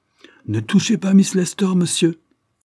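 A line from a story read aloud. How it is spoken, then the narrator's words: Pale with anger, exclaiming. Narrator (French): s'écria Lord Dane, blême de colère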